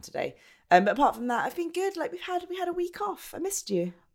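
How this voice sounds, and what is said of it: Low, gravelly sick voice. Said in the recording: “I sound like very low. I'm not that well. I'm a little bit sick... Just a little bit of a sore throat going on, a little bit of the cold, a little bit gravelly... I sound a bit like a man”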